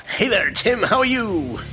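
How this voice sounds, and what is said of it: Radio voice, British accent fades. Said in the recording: “let's do radio voices ... you kind of lose your British accent when you do that”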